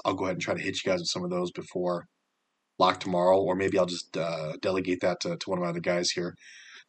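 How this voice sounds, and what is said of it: Tired-sounding voice. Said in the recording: “you can tell my voice is a little tired here”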